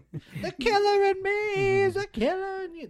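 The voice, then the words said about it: Imitates a rock singer's voice. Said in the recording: “my Smashing Pumpkins impersonation ... That's actually pretty good.”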